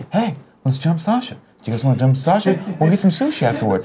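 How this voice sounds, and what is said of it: Imitates another person's voice. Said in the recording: “my amazing Mark Wahlberg impression”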